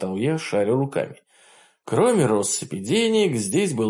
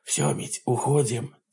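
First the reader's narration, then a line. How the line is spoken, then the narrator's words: Quiet whisper. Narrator (Russian): тихо прошептал я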